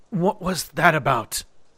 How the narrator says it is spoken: I said between breaths

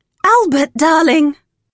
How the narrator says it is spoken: cried Sally

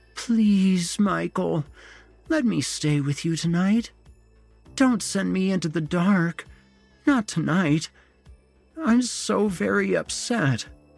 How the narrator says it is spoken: moaned

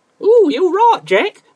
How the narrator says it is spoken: shrieked another

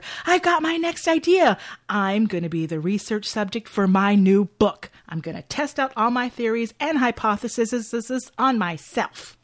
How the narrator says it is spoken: Kendall excitedly tells her

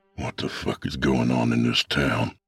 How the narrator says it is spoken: I muttered

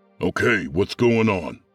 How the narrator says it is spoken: Sergeant Harris barked

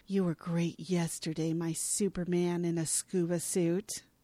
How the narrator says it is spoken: Nicole strokes Mark's face and murmurs

